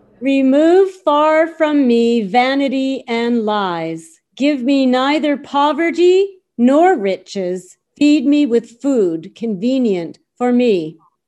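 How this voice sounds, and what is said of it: Reading aloud very loudly. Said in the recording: “Say it really loudly.”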